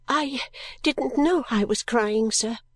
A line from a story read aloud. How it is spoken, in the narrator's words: I faltered